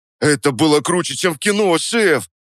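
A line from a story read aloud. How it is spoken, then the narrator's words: Babbling. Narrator (Russian): пролепетал Вовчик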